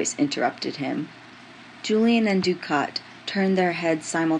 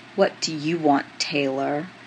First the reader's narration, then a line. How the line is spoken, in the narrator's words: Dukat asked scornfully